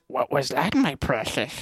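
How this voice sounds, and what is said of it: Gollum voice impression. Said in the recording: “Gollum. Gollum. ... Can you do the voice?”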